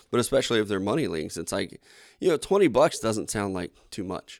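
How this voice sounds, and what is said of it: Hoarse, strained voice. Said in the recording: “I feel like I'm losing my voice today.”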